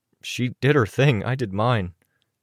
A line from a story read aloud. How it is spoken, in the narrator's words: Durbin said